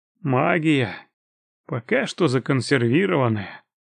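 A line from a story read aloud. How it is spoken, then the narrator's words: Sigh. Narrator (Russian): вздохнул я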